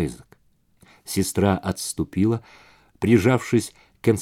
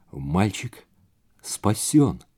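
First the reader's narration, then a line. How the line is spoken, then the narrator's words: Hoarse rasp. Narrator (Russian): прохрипела Джонни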